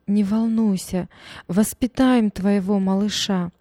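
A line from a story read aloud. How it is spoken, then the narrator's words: Sobbing comfort. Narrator (Russian): Мама, всхлипывая сквозь слезы, утешала дочь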